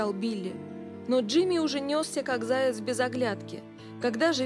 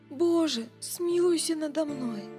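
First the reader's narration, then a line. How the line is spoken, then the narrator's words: Groaning plea. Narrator (Russian): застонал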